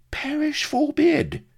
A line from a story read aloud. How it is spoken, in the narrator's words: exclaimed the Fink indignantly